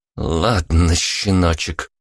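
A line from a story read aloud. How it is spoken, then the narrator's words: Through gritted teeth. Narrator (Russian): процедила Вика сквозь зубы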